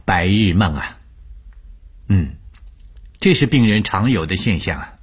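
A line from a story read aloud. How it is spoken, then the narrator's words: Calm, faint smile. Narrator (Chinese): 吴医生淡淡一笑，对我说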